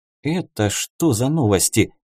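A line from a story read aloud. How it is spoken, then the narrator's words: Muttered. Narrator (Russian): пробормотала Сайла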